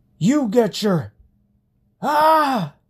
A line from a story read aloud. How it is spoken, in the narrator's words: His scream seemed the result of searing pain